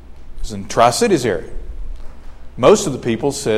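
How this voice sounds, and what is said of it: Usual voice. Nothing is said of it.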